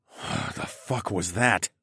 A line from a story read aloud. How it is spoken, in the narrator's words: I whispered, after Horace and I whipped around and peered into the darkness where the unsettling roar sounded from